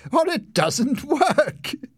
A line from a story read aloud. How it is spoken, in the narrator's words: said Leslie, laughing